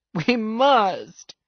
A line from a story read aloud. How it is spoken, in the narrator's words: wailed Mr